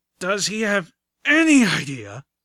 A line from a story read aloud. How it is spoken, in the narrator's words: the griffin carrying Velvet Remedy grunted